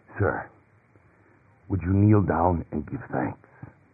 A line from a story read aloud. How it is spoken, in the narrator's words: The boy hoarsely whispered